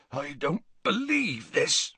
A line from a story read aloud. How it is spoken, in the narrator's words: said Hagrid hoarsely